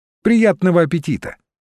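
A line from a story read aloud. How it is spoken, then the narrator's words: Cheerful. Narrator (Russian): сказала она весело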